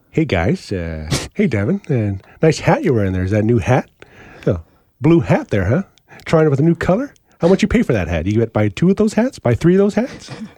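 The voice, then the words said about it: Imitates another person's voice. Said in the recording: “do a Taz impression”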